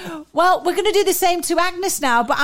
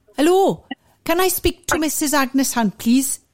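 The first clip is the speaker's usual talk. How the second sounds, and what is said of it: Put-on Welsh accent. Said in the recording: “I'm going to be a Welsh double glazing saleswoman ... Will she fall for my Welsh accent?”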